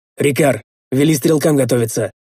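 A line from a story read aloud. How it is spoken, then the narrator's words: Curt command. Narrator (Russian): отрывисто приказал я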